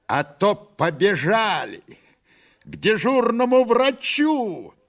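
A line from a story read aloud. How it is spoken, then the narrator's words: Shouting. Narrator (Russian): она кричала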